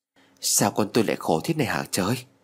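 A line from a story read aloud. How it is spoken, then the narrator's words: Mumbling. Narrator (Vietnamese): Mẹ lại lẩm bẩm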